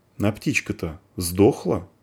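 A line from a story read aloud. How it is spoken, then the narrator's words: Plain. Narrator (Russian): сказал Сидус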